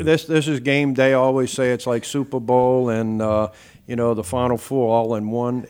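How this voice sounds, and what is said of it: New Orleans accent. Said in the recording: “originally from the New Orleans area ... You can tell by this accent.”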